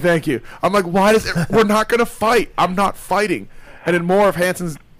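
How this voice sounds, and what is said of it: Usual voice. Nothing is said of it.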